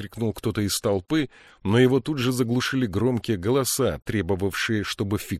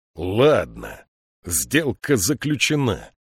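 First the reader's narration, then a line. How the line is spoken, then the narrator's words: Growling. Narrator (Russian): прорычал он наконец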